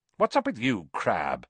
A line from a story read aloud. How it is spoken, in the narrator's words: snapped Malfoy